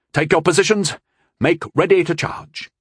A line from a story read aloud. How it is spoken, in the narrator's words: he shouted